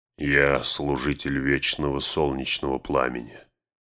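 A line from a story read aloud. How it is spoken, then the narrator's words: Quiet, steady. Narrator (Russian): все так же негромко продолжал Гэндальф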